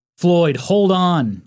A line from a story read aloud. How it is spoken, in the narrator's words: Gerald yelled